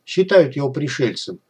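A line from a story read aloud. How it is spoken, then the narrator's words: Dry explanation. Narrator (Russian): сухо пояснил Лавров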